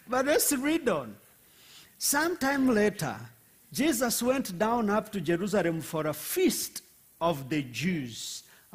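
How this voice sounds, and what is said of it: Rwandan-accented English. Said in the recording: “I forget that most of you are not used to the Rwandan accent.”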